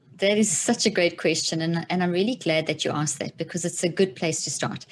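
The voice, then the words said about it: South African accent. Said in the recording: “that South African accent”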